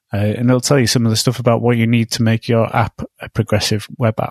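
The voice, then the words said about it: Hoarse, cold-affected voice. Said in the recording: “losing my voice anyway. I've got a bit of a cold.”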